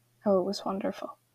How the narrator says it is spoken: He said quietly

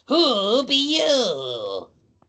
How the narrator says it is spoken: It asks in a raspy

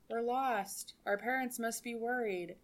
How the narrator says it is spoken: in a straight monotone voice

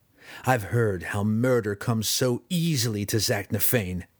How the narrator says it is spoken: Drizzt spat derisively

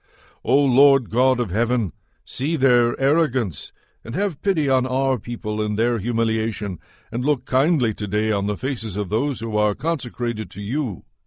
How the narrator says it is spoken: the people fell down and worshipped God and cried out

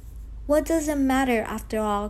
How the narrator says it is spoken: cried Geppetto all at once

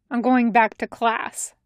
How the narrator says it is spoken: he says curtly

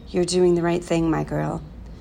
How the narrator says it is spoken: whispered in her ear

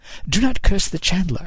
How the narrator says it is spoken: he said, entirely too brightly

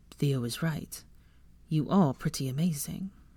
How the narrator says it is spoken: said softly

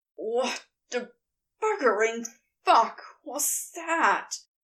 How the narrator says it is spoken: He wheezes finally when he has his breath back

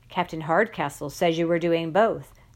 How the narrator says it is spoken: the headmaster said

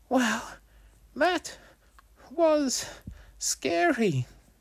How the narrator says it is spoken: Wolfie gasped between breaths

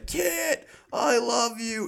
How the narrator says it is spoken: he's yelling

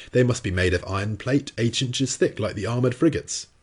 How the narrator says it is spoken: exclaimed

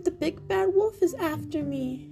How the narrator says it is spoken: He squealed

